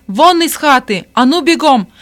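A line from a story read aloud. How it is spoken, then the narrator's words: Bearded man shouting. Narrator (Russian): Бородатый крикнул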